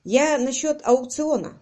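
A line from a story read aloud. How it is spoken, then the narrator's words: Plain. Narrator (Russian): сказал он Райкеру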